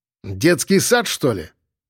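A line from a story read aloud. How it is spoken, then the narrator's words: Barking. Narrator (Russian): рявкнул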